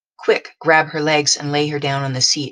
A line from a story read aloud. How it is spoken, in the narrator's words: I said